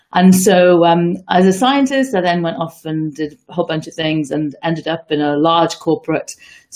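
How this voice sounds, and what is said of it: British English accent. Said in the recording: “You can probably hear from my accent that I was born and brought up, certainly for the first part of my early life in the UK.”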